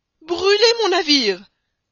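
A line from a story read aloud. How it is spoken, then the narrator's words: Choked, barely articulate exclamation. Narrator (French): s'écria le capitaine Speedy, qui ne pouvait même plus prononcer les syllabes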